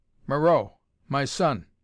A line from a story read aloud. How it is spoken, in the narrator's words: snapped the Tsar